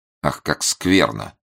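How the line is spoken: Mumbled to no one. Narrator (Russian): пробормотал коллежский советник, ни к кому не обращаясь

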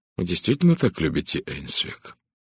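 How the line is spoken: Quiet question. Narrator (Russian): Эдвард тихо спросил

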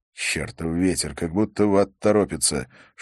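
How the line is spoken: Whispered cursing. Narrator (Russian): шепотом ругался Откинс

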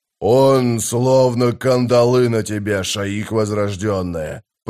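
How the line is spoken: Growling. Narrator (Russian): прорычал Таблакай

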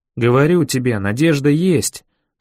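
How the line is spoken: Plain. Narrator (Russian): сказал Бен

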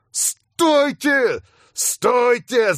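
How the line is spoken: Yelling. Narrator (Russian): завопил я

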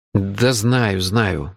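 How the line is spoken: Mutter. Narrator (Russian): буркнул я

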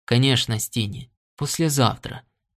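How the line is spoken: Gentle reply. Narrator (Russian): мягко ответил Норт

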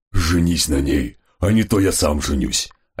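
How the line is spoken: Hoarse warning. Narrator (Russian): осипшим голосом предупредил Гесс

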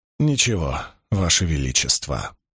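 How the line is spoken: Mumbling. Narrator (Russian): пробормотал Доусон

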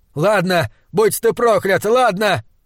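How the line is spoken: Yelling. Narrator (Russian): орал он

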